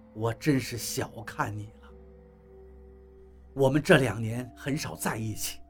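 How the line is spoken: Sighing. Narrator (Chinese): 王八叹了口气

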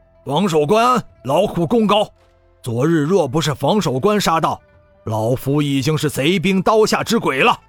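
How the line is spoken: Gruff, loud old man. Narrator (Chinese): 这个魁梧的老将吸了一口气，粗着嗓子大声说道

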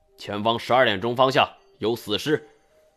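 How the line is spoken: Loud shout. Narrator (Chinese): 就高喊一声

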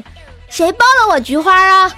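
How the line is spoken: Shouted. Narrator (Chinese): 他…冲我们大喊了一句

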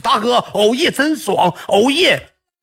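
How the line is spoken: Shouting. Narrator (Chinese): 老三当时喊了句

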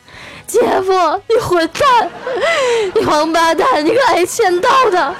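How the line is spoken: Loud shout. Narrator (Chinese): 我表妹扯开嗓子就喊

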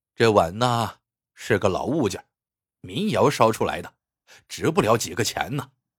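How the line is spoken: Sighing. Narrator (Chinese): 张三却叹了口气说

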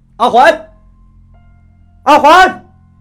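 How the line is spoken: Echoing call lost in wind. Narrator (Chinese): 街道的尽头传来我的回音，转眼又被北风吞没了

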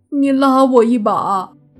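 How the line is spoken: Crying. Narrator (Chinese): 慕云逸哭着说

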